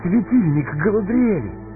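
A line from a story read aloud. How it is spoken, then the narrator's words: Exclaimed. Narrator (Russian): воскликнула живая Сэмми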